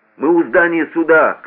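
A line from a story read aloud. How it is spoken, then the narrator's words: Shouted. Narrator (Russian): крикнул шофер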